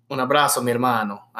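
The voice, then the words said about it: Spanish phrase in put-on Italian accent. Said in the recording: “That was just Spanish and an Italian accent ... you're trying really hard”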